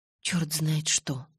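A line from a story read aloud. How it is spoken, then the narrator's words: Muttering. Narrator (Russian): пробормотала я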